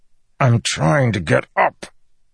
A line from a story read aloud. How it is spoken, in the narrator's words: he said through gritted teeth